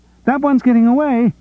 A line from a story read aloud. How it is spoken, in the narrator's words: Kathy Wickham cried